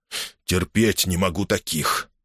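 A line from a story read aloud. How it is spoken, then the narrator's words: Loud mutter. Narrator (Russian): пробормотал он достаточно громко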